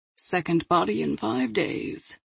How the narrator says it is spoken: Victor said sadly

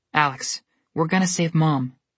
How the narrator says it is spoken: he said firmly

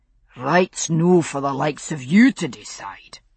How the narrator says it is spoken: McNeil's deep growl joined in

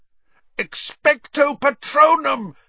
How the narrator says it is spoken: Harry yelled, trying to blot the screaming from his ears

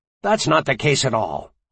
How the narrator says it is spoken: Arnold snapped

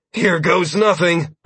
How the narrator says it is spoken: I exclaimed, taking in a deep breath

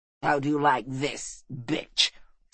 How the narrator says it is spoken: sneered the red-bearded captain

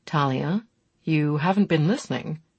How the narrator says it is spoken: Chris said in a low, warning voice

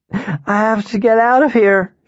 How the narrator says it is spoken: she cried

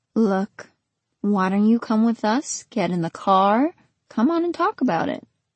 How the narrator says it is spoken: the man said in that fake lullaby voice

